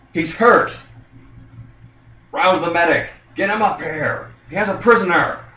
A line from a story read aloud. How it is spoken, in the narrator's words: you hear one of them shout